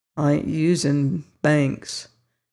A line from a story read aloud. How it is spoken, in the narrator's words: murmured the youth